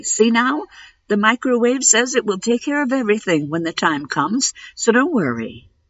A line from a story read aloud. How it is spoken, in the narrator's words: said cheerfully